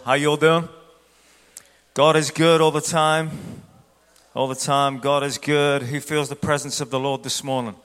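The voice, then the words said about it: Accent from another region. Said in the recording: “the guy with the funny voice who is not from this region”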